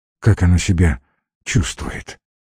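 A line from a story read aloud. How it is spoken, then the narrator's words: Dejected asking. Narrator (Russian): упавшим голосом спросил Георгий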